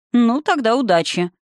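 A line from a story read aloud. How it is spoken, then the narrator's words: Mocking. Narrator (Russian): насмешливо пожелал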